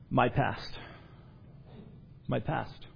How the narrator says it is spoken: his miserable friend sighed and unhappily said

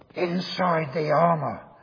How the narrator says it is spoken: Spurgeon is reputed to have said in a loud whisper

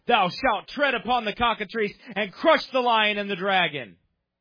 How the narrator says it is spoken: the cardinals thundered forth in loud tones

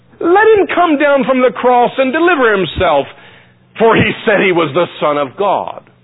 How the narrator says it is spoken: the Jewish leaders scoffed and scorned and said

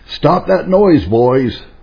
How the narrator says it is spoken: the father shouted out

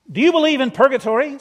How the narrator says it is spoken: said Stokesley to him sternly

